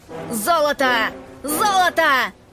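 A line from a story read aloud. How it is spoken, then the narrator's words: Several voices shouting. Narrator (Russian): Закричали они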